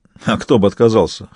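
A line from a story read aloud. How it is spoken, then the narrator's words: Snort. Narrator (Russian): хмыкнул Каэтан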